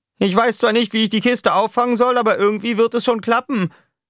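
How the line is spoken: Shouting downward. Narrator (German): schrie Roughshot nach unten

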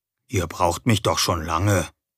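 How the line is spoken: Quiet answer. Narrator (German): antwortete ich leise

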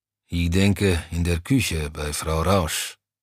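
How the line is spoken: Low grumble. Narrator (German): brummte Browny

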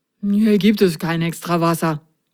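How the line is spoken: Mumbling. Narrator (German): nuschelte er

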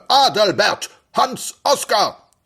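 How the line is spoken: Thundering male voice. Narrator (German): donnerte eine Männerstimme

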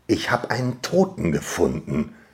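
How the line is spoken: Soft, growing excitement. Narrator (German): sagte ich leise, mehrmals, aber dann mit wachsender Begeisterung

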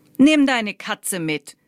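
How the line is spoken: Calling out. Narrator (German): rief Lai ihm zu

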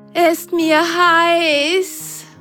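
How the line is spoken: Panting. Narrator (German): keuchte die eine Socke

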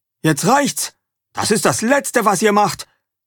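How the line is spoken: Father shouting. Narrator (German): Als sie nur noch knapp 100 Meter trennen, ruft Vater

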